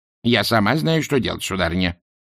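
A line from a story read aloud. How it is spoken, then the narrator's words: Snapping retort. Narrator (Russian): огрызнулась матушка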